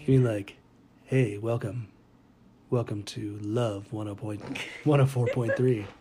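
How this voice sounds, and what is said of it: Late night FM radio DJ voice. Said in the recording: “Find your late night FM DJ voice... No, more FM... Yes, just like that.”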